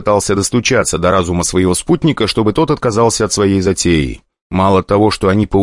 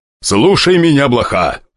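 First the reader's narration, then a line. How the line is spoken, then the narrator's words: Snapping. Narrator (Russian): огрызнулся старатель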